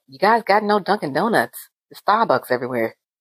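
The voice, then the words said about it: Put-on Boston accent, fairly good. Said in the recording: “he was from Boston... That was a good accent, wasn't it?... That was good... I was very impressed with myself. I'm not a good accent person.”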